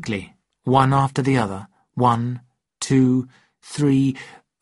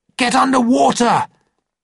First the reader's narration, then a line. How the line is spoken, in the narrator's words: I shouted